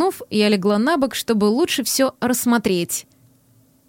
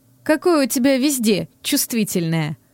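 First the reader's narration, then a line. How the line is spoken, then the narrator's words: Amused snort. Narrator (Russian): Хмыкнув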